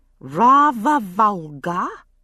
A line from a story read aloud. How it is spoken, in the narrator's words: she drawled, mocking my own accent